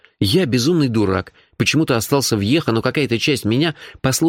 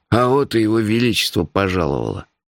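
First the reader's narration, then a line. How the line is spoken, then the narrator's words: Gloomy. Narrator (Russian): мрачно сказал Мелифара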